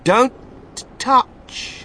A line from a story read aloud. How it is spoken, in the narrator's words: shouted Mr